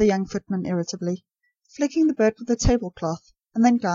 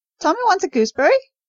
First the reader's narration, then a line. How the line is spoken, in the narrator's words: shrieked the macaw